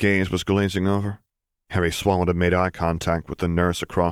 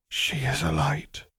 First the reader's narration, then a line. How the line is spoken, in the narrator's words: whispered Alice Longbottom